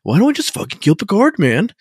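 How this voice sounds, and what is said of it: Surfer dude accent. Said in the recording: “He sounds like a surfer dude from Orange County.”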